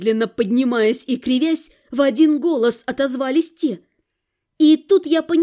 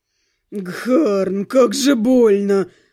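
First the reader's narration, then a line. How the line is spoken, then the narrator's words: Moaning in pain. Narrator (Russian): простонал кто-то из подвергшихся нападению синего парней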